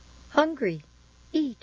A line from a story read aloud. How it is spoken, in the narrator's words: In a childlike voice, it said